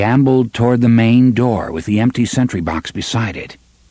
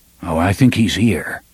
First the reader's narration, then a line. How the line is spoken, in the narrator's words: Roland murmured